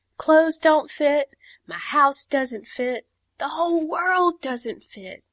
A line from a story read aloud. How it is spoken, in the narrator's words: cried Teeny